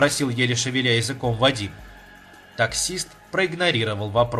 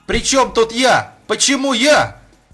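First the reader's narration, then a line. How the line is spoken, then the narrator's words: Shouting in denial. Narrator (Russian): кричал Вадим, не желая понимать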